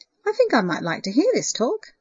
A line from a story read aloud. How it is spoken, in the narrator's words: said cheerfully